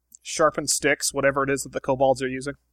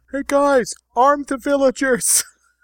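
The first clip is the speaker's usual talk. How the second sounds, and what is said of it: Yelling. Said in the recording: “I'm yelling this point from the top of the cliff”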